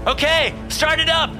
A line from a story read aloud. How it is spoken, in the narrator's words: shouted